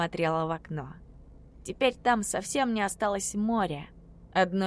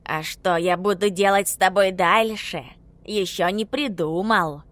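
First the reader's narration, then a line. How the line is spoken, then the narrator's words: Angry hiss. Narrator (Russian): продолжал шипеть Ховрин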